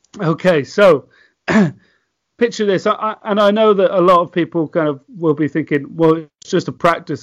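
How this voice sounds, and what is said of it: British accent. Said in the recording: “This guy over with the British accent”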